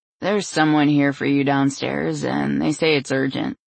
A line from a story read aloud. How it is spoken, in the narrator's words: he said in a stoned voice